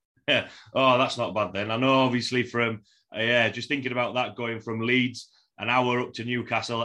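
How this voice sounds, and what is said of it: Broad Yorkshire accent. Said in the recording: “a broad Yorkshire accent”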